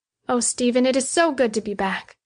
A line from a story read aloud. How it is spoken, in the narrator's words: breathed